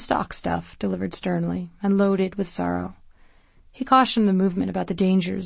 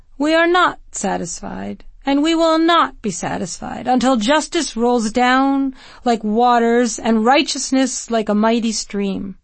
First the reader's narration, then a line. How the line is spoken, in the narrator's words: his voice rising, he said